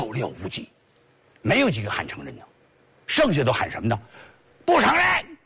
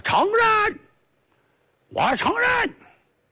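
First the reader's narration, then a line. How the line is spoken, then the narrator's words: Shouting. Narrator (Chinese): 这时有人就喊上了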